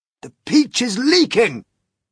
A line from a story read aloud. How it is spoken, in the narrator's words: shouted the old green grasshopper